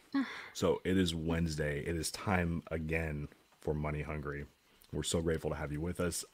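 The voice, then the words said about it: Weak, nearly lost voice. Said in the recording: “I am under the weather ... My voice is kind of non-existent”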